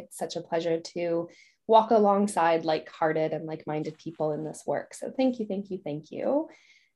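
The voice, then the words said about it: Slight Canadian accent. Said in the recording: “originally from Canada. So you can hear a little bit of an accent there”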